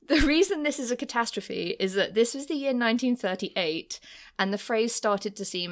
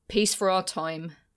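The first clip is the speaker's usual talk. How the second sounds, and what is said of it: Grudging impression of another person. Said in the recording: “my impression of Neville Chamberlain grudgingly saying something”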